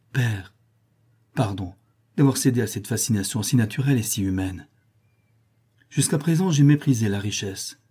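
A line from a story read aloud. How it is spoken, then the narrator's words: Tender voice. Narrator (French): dit-il d'une voix tendrie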